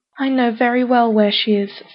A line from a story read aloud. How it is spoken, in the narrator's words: sighed the top